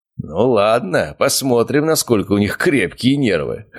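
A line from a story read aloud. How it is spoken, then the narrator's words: Ghost's chuckle. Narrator (Russian): хохотнул призрак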